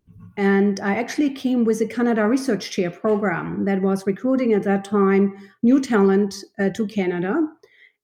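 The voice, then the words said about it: German accent. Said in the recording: “As you can hear from my accent, I am not originally from Canada. I came here in 2006 from Germany”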